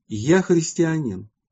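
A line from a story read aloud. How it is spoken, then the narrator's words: Exclaiming three times. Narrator (Russian): святый Лукиан, увидав их, три раза воскликнул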